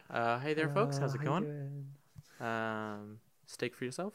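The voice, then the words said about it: Soft, gentle customer-service voice. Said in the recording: “I talk very soft.”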